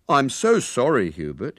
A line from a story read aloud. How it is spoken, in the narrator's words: said